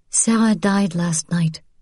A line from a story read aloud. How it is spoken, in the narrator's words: she said gently